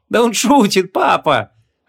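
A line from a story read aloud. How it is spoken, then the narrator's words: Laughing. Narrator (Russian): рассмеялась Вон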